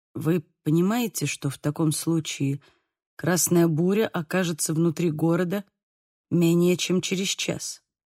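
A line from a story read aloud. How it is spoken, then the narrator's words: Very quiet. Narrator (Russian): Произнес очень тихо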